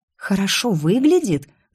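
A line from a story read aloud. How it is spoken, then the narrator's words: Hissed reply. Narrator (Russian): зашипела в ответ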